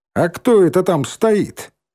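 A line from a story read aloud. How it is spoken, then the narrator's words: Shouted. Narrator (Russian): крикнул Вальк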